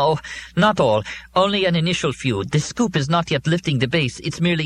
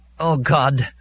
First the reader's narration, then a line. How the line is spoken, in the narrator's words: Molly said wearily